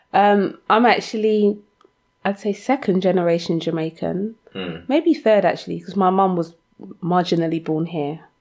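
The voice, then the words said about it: London accent. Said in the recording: “you're a Londoner and I hear your accent.”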